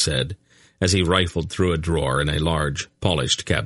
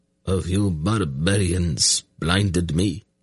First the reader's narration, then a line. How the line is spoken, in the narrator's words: Ulfgar said in a weak voice as he struggled into a sitting position